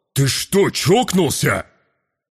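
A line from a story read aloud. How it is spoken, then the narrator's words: Angry deep bass. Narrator (Russian): Сердито забасил воин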